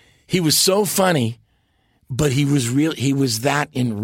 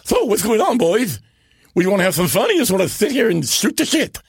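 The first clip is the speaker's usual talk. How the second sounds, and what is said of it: Imitation of an older man. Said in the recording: “Edwin, my great uncle ... do an imitation ... I hear that you do a pretty good one, too”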